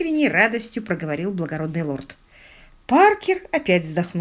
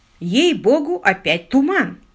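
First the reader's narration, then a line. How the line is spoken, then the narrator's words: Plain. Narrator (Russian): сказал лорд Питер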